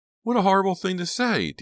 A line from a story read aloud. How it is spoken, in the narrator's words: Dina cried from the back seat